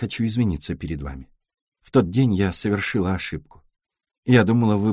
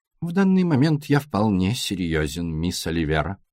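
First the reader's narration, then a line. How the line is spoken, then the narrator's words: Grim. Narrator (Russian): мрачно произнес сыщик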